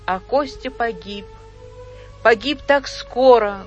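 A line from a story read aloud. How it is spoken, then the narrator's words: Sad mother speaking. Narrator (Russian): грустно сказала мама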